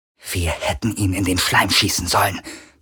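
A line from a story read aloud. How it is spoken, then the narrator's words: Hiss. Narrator (German): zischte sie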